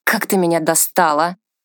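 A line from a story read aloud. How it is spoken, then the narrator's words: Groaning. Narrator (Russian): простонал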